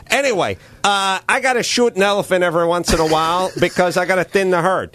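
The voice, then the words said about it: Impression of the GoDaddy guy. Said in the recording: “my impersonation of the guy”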